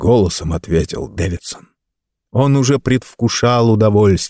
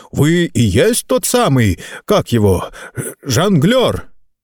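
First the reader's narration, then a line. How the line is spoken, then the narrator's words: Farmer shouting out. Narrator (Russian): Высокий фермер выкрикнул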